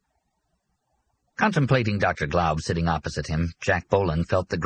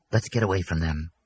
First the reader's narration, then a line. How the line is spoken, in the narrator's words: the girl whispered